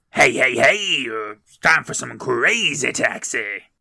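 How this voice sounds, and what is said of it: Imitates the Crazy Taxi game voice. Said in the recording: “a mean Crazy Taxi impression”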